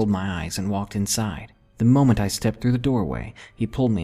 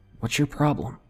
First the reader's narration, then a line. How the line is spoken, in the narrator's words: whispering too